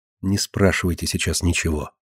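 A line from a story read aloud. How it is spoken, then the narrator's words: Whisper. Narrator (Russian): Марина шепнула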